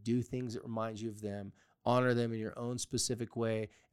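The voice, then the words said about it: Slightly raspy voice. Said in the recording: “my voice is a little raspy today, it's because I have been crying a lot”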